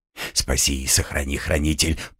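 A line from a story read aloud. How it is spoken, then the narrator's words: Muttering. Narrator (Russian): пробормотал он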